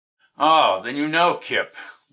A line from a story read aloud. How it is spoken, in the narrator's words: laughed Krim